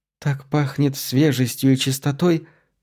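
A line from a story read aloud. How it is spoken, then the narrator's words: Whispering woman. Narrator (Russian): прошептала она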